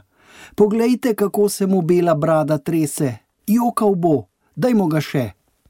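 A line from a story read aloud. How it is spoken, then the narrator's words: Girl calling out. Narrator (Slovenian): Neka deklica je zaklicala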